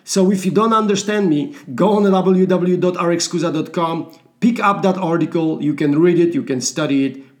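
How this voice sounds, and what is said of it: Russian-sounding accent. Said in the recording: “I'm European. My accent sounds Russian.”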